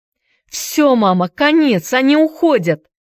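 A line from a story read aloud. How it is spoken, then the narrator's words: Shouting. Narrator (Russian): крикнула она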